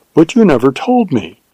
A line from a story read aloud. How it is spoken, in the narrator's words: she exclaimed with wonder and reproach